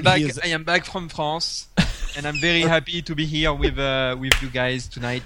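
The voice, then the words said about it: Weak put-on French accent. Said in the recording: “I need to take the French accent ... That's pretty pathetic.”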